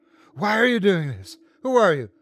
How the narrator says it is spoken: The little girl smiled even as she choked

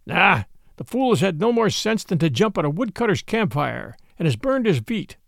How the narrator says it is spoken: said Father Wolf with a grunt

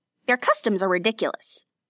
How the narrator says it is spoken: snorted, making a strange whistling sound in his nostrils

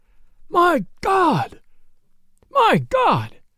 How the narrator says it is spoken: cried the sheriff

